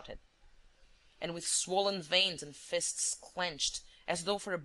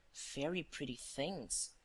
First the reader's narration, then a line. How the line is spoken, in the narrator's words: whispered Wilson